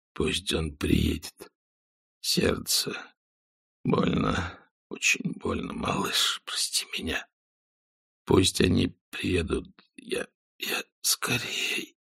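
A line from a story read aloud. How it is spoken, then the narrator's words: Hoarse rasp. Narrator (Russian): прохрипел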